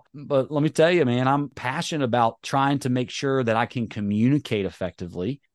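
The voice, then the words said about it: Slight Southern US drawl. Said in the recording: “I'm from North Carolina. You know, I got a little bit of Southern drawl”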